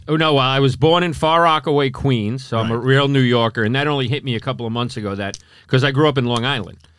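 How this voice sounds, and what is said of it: New York accent. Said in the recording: “That New York accent of yours”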